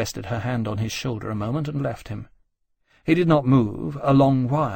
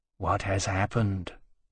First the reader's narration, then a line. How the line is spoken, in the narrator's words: Temeraire asked quietly